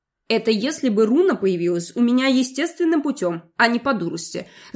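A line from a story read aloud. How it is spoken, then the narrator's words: Remark with snort. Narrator (Russian): заметила я и хмыкнула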